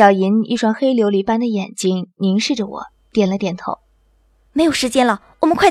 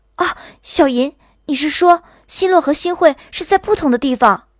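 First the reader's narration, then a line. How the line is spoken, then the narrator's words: Sudden alarmed cry. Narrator (Chinese): 忽然惊慌的叫起来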